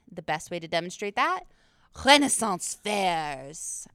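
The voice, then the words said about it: Word said in French accent. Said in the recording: “I said Renaissance with a French accent.”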